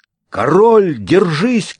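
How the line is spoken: Shouted. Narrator (Russian): крикнул я

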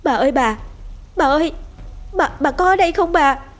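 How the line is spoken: Trembling, panting, calling loudly. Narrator (Vietnamese): Giọng nói của cô Lý run run vì lạnh, vừa thở hổn hển, gọi lớn

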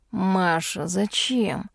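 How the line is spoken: Moaning. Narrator (Russian): простонал Эрик

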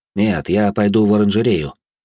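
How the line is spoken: Plain. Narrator (Russian): ответила служанке

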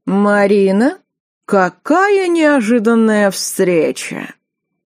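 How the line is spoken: Drawling. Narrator (Russian): протянул Сергей

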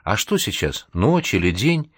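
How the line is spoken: Bewildered, confused question. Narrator (Russian): в полном замешательстве растерянно спросила

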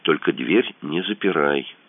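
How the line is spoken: Whisper. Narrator (Russian): шепнул Кацуба

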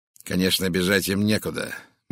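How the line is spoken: Gloomy statement. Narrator (Russian): мрачно сказал бандит

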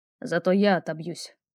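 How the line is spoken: Hoarse voice. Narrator (Russian): послышался хриплый голос

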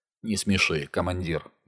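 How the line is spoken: Grumbled. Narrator (Russian): буркнул снайпер

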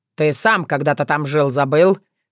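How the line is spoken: Barked. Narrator (Russian): рявкнул Тявин

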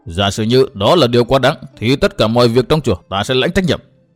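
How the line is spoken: Loud scolding. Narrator (Vietnamese): Ngân Thông lại nạt lớn

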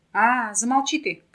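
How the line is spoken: Shout. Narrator (Russian): крикнул он

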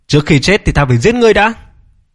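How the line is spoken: Fierce shout. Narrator (Vietnamese): Viên Kim Hòa dữ tợn quát

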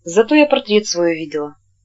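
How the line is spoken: Quiet. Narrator (Russian): Она сказала тихо

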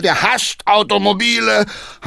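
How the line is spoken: Called out. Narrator (German): rief Hackendahl

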